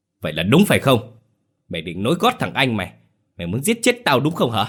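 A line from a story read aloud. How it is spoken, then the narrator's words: Furious shout. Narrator (Vietnamese): điên tiết hét lên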